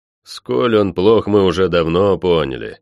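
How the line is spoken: Displeased grumble. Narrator (Russian): недовольно пробурчал я

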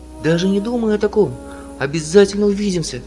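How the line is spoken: Exclaim. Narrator (Russian): воскликнула она

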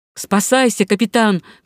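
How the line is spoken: Shouting. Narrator (Russian): крикнул ему капрал

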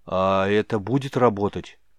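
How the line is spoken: Unsure, hopeful question. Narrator (Russian): Неуверенно, но с надеждой в голосе спросил Мрагорн

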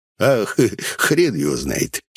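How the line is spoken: Giggling. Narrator (Russian): хихикнул Гнус

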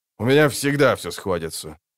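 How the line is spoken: Dry. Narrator (Russian): сухо сказал Банар

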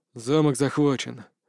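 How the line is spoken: Tired report. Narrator (Russian): устало доложил

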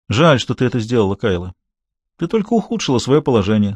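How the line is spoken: Calm. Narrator (Russian): спокойно сказал Руже

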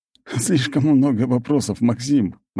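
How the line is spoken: Laughing. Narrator (Russian): рассмеялся он

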